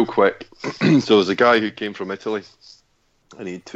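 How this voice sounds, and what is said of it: Usual voice. Nothing is said of it.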